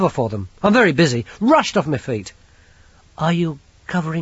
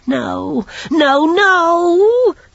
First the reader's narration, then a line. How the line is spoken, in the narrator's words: Chicken Wire whined